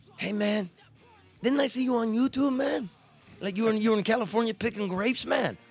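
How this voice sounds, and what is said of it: Cheech and Chong impression. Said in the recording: “Best Cheech and Chong impersonation I've heard all day long.”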